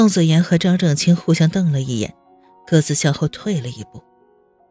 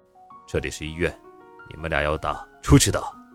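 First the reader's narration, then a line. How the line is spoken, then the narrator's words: Cold voice. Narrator (Chinese): 宋时清冷声道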